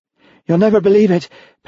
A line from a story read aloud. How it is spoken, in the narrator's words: panted Edie